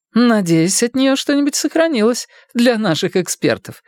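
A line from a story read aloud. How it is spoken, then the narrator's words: Cheerful declaration. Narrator (Russian): весело заявил Артега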